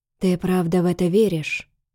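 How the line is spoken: Near-whispered question. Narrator (Russian): спросил он тихо, почти шепотом

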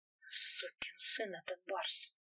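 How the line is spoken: Quiet muttering. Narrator (Russian): негромко пробормотал капитан Борзунов

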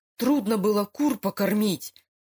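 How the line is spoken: Angry curt remark. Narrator (Russian): зло бросил Лука

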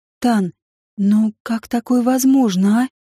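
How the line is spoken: Timid. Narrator (Russian): Голос Асхепт прозвучал робко

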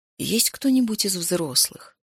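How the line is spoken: Quiet, ingratiating, smiling. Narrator (Russian): улыбнулся он и спросил тихо, вкрадчиво

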